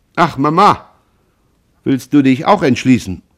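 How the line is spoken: Called. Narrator (German): rief Jean

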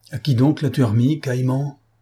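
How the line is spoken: Exclaimed. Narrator (French): s'écria M

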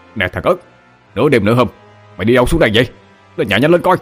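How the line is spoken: Hurried shout. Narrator (Vietnamese): Anh Út vội la lên

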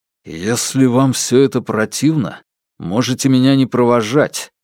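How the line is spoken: Through clenched teeth. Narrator (Russian): процедил Алексей

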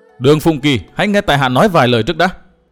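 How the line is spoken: Loud shout. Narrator (Vietnamese): Cố Kiếm Nam quát to

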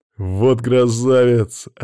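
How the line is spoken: Joyful exclamation. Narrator (Russian): радостно воскликнул Макс

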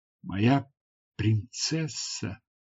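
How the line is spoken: Whispered. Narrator (Russian): прошептал

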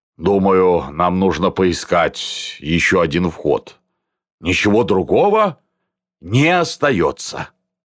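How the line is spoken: Slightly drunk, gloomy. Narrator (Russian): Милованов самую малость протрезвел и мрачно сказал

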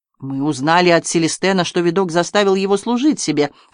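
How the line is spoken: Plain. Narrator (Russian): ответил Монтегю

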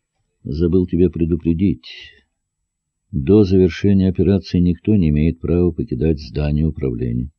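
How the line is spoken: General's muffled voice. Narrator (Russian): генерал сказал глухо

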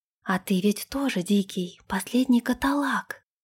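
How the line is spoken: Intimate whisper. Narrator (Russian): прошептала она ему в губы

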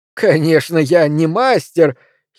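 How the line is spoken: Giggling. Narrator (Russian): хихикнул дядя

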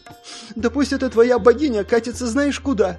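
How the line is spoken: Grumbling, sobbing. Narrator (Russian): Ворчливо и всхлипывая произнесла Сонг

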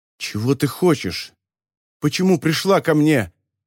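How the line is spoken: Shrill, frightened voice. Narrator (Russian): Его собственный голос звучал пронзительно и испуганно

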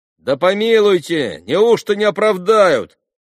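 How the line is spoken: Young official shouting. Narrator (Russian): кричал в другой группе один из молодых наших чиновников

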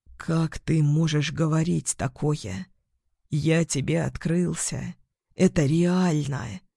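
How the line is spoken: Hoarse faint whisper. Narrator (Russian): Хрипло шепчет, едва слышно

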